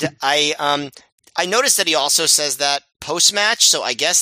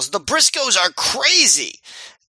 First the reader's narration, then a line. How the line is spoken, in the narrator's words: Prazak yells